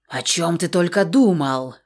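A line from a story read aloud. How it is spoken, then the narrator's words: Indignant female hiss. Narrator (Russian): шипел возмущенный женский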